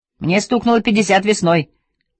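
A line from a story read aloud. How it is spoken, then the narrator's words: Shout. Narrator (Russian): крикнул Вестин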